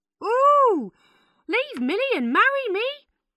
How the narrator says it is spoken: cried Hannah loudly

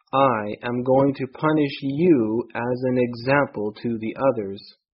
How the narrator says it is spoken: he said

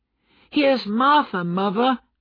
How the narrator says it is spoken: cried the two young Cratchits happily

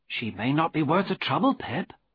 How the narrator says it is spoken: Biddy said gently

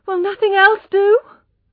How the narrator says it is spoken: cried Tess in despair

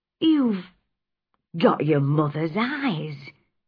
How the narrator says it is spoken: he said in a shaking voice

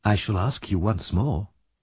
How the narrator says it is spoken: said Harry softly

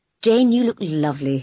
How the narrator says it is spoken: said

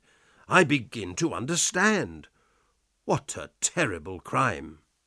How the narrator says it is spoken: I cried

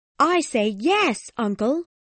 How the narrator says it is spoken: exclaimed

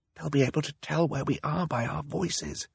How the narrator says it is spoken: he whispered

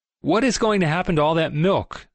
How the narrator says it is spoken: said someone

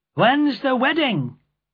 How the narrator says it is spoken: one man in the crowd called out

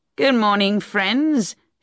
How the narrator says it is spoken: shouted Troy cheerfully to the men

